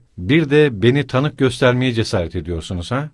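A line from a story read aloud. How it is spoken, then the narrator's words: Plain. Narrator (Turkish): dedi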